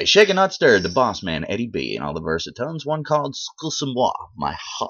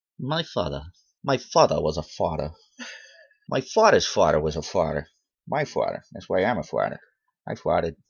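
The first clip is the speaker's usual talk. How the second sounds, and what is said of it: Peter Griffin impression. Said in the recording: “Now you don't sound French. You sound like Peter Griffin.”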